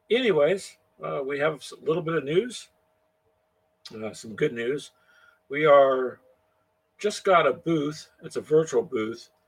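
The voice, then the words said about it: Slightly rough, hoarse voice. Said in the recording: “pardon my voice. It's a little rough... It's a bit rough on the voice”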